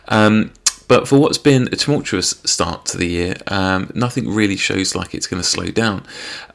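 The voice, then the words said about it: Hoarse voice. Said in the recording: “my voice is a bit hoarse. I am trying to shake off a cold”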